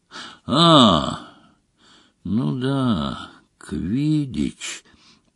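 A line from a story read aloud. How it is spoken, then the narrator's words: Drawling. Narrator (Russian): протянул он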